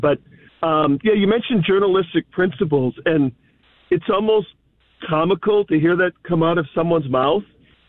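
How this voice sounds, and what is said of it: Scratchy voice. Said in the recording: “my voice is a little scratchy this morning”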